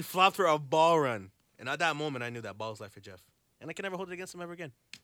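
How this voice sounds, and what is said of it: Usual voice. Nothing is said of it.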